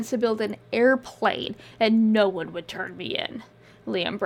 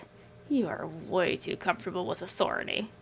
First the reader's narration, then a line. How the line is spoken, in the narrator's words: With his cig lodged between his lips, he muttered